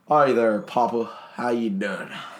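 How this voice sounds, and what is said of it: Heavy Southern accent. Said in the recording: “It's a southern accent, and like, it's heavy.”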